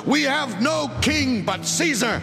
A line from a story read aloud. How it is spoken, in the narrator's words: They shouted